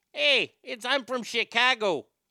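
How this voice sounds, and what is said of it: Put-on Chicago accent. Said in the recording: “Dan Aykroyd does a great Chicago accent”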